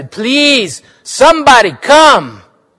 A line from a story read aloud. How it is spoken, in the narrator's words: Willa shouted